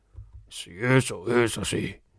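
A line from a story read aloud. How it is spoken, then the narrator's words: Hoarse voice. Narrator (Spanish): dijo con voz ronca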